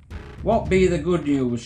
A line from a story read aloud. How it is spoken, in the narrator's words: shouted